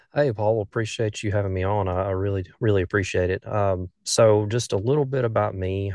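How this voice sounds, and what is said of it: Southern US accent. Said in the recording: “If you can't tell from my accent, I'm from the southern portion of the United States, northern Alabama... I can tell you have an accent”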